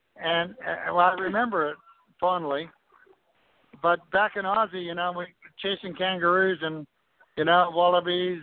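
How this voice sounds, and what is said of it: Australian accent. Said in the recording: “I'm hearing the Aussie accent when you say kangaroos.”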